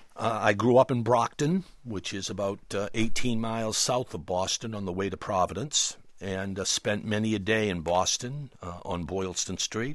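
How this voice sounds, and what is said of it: Noticeable regional accent. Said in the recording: “as people can, I think, hear from your accent”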